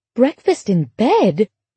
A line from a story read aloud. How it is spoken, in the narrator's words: Laura affected a gasp of surprise